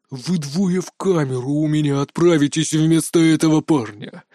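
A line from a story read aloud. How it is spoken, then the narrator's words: Through gritted teeth. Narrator (Russian): процедил Лэн Сотхо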